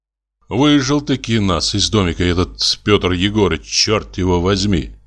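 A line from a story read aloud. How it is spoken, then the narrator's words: Angry grumbling. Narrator (Russian): ворчал я, не на шутку рассердясь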